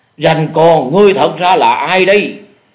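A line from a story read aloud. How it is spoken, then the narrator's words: Loud shout. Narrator (Vietnamese): Dạ Điểu Thần Ma lại lớn tiếng quát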